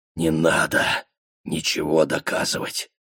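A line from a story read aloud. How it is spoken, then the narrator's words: Whispered. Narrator (Russian): прошептал сыну Баатр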